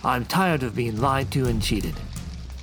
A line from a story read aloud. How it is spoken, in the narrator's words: Dugan snarled